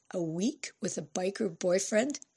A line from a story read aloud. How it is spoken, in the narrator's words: In shock, Fran muttered